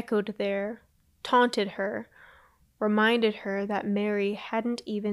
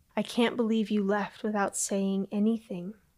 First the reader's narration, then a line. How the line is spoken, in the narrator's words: Ava whispered to the planchette